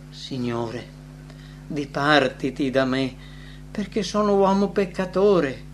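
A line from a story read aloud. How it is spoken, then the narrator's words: Kneeling man exclaiming. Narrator (Italian): cadde ai piedi del Salvatore esclamando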